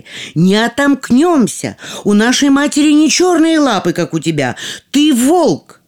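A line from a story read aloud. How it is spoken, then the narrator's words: Children shouting. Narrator (Russian): дети закричали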